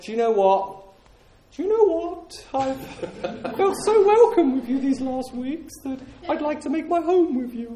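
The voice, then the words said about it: Impression of the Queen. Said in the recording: “That's the very best Queen impression I can do.”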